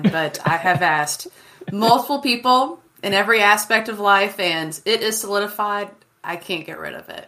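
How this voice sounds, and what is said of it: Southern American accent. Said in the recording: “I didn't have too strong of a one ... It is a Southern thing that's just going to stay with me ... I might as well have an accent to go with it”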